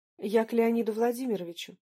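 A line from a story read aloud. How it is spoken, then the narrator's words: Calm. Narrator (Russian): ответила я спокойно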